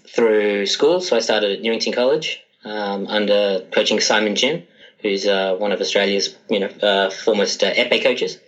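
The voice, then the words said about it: Australian accent. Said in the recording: “as you can probably tell by my accent ... Sydney, Australia”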